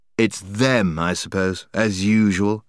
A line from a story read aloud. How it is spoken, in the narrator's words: said the boy grimly